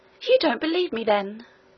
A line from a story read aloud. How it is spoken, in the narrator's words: exclaimed the Princess, astonished and angry